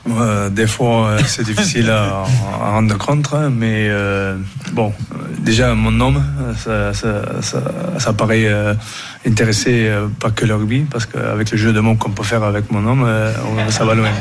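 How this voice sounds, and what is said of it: Southwestern French accent. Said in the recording (French): “Il a l'accent du sud-ouest.”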